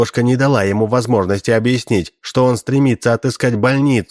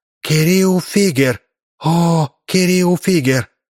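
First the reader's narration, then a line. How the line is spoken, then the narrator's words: Whispered. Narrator (Russian): Она прошептала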